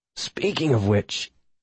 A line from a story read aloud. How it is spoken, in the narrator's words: I wheezed